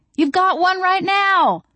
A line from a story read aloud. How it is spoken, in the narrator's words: I yelled